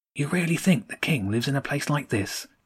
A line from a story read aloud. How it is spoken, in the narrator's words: James whispered